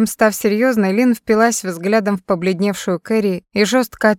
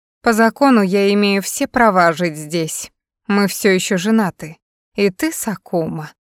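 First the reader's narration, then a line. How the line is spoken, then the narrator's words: Softened, purring. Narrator (Russian): смягчилась, вновь замурлыков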